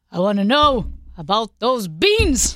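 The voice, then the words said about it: Bernie Sanders impression. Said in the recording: “You do a pretty good Bernie Sanders impersonation”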